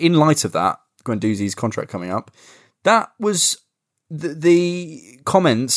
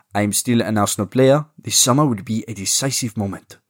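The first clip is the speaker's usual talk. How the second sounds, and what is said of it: Poor put-on French accent. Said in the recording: “my shit French accent”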